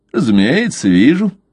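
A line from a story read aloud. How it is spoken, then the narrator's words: Lazy reply. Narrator (Russian): ленивым голосом ответил Блад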